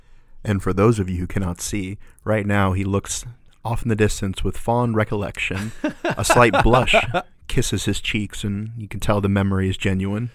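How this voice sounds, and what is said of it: Storybook narrator voice. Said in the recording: “narrator voice, like in a story”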